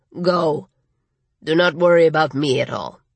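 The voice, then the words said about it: Gravelly voice, slight Latin accent. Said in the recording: “in his gravelly voice with a hint of a Latin accent.”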